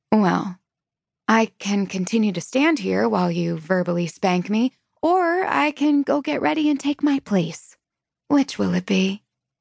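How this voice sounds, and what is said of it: Sugary, falsely sweet tone. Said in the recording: “The sugar in my voice might as well be saccharine.”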